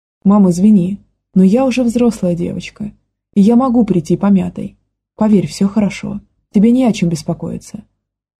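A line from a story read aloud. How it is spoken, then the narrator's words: Trying to sound gentle. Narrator (Russian): старалась я говорить мягко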